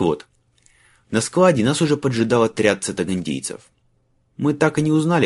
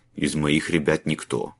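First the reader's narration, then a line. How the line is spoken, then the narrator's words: Muttered. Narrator (Russian): пробормотал Сьембьеда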